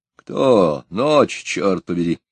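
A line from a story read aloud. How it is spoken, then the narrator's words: Angry sleepy voice. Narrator (Russian): Он откашлялся и, не наигрывая, спросил злым сонным голосом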